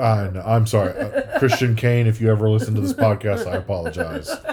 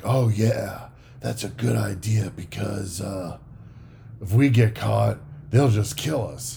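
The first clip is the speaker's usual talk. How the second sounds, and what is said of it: Poor imitation of a character's voice. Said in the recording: “terrible impression of Elliot”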